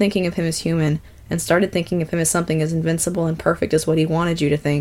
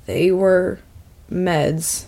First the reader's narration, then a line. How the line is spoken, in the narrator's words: said, his voice thick